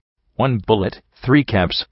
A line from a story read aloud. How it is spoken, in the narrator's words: the filly behind the counter declared firmly